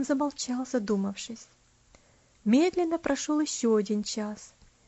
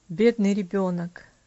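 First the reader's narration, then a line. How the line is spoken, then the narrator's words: Sigh. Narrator (Russian): вздохнул Иваршам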